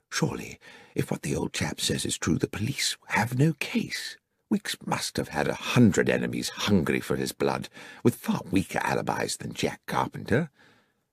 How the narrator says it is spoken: I said quietly to Holmes

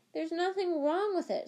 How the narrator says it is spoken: said Harry, his voice shaking slightly

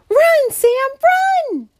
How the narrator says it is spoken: cried Stella

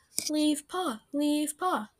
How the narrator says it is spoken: the cats yelled

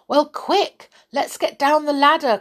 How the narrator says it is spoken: cried Silky

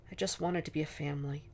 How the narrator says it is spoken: he said quietly against Eleanor's curls

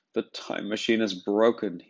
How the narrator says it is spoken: almost sobbed

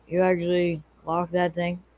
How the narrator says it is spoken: He said sarcastically

